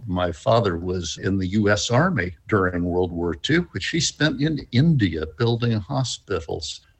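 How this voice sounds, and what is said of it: North American accent. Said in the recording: “As you can tell from my accent, I'm not really from here. I hide out as a Canadian.”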